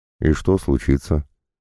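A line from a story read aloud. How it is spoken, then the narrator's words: Calm clarifying question. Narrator (Russian): спокойно уточнил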